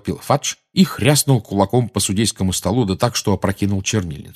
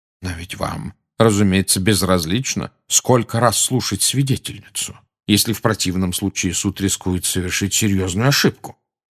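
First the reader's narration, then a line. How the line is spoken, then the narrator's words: Plain. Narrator (Russian): сказал Дамблдор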